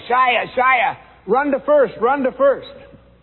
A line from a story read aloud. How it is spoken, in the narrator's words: Everyone started yelling